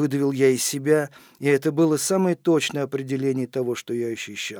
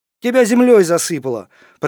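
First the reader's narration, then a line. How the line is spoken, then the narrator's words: Shout from neighboring bed. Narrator (Russian): прокричал голос соседней койки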